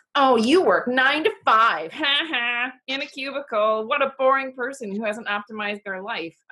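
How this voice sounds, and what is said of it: Exaggerated cartoonish mocking voice. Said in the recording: “That's not my smug voice. That's my cartoon voice.”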